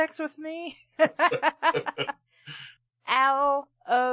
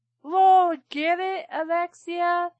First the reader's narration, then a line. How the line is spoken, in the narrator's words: He shouted happily at me